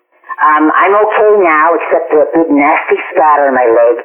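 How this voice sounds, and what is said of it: Impromptu impersonation. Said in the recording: “impromptu impersonation. That was wonderful.”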